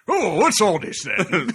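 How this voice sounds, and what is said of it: Old-fashioned English police officer voice. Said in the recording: “my favorite impression. This is my impression of any cop approaching a Sherlock Holmes death scene”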